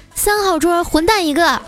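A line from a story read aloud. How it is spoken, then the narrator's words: Loud shout. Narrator (Chinese): 那服务员 就大喊说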